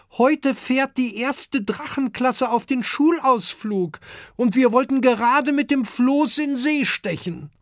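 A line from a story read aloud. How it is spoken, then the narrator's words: Calling upward. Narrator (German): ruft Kokosnuss zum großen Amadeus hinauf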